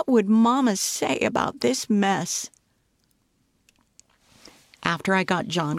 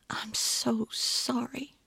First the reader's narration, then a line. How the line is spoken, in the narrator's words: whispered